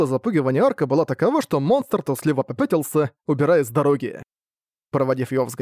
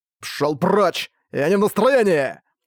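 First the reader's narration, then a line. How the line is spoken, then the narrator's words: Angry bark. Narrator (Russian): Рявкнул он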